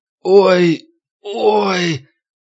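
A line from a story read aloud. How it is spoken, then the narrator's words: Old man groaning. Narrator (Russian): Пожилой мужчина застонал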